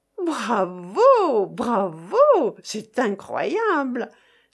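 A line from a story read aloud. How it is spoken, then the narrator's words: Exclaimed. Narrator (French): s'exclama mademoiselle de Valrieux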